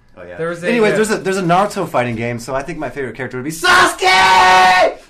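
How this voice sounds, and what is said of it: Loud, yelling delivery. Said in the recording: “he's yelling”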